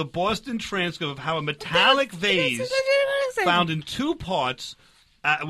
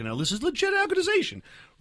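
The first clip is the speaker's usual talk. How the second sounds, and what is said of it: Voice rises in pitch. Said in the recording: “why does your voice go up when you say it?”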